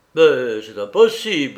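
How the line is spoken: Sudden exclamation. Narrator (French): s'écria-t-il tout à coup

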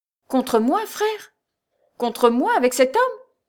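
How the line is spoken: Exclaiming. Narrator (French): s'écria Raoul

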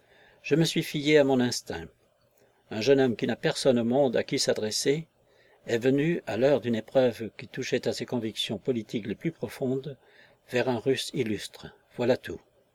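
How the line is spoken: Deferential tone. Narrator (French): Razumov disait d'un ton déférent

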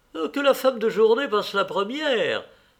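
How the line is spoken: Woman exclaiming. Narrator (French): s'écria celle qui était entrée de bord

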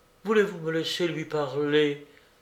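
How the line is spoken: Humble, submissive tone. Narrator (French): dit Flore d'un ton humble et soumis

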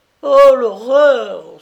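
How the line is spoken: Several women laughing, exclaiming. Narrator (French): s'écrièrent plusieurs femmes en riant

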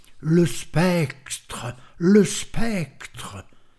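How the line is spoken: Muffled terrified repeated cries. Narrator (French): Stenio, saisi d'une terreur incompréhensible, s'écria à plusieurs reprises, d'une voix étouffée

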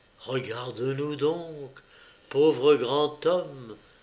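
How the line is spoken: Said quietly. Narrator (French): dit à voix basse Madame du Tillet

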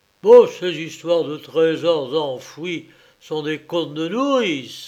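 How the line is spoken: Gruff exclamation. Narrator (French): s'écria d'une voix rude

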